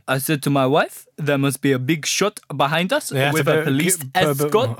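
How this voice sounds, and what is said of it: Put-on French accent. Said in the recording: “Do it in a French accent.”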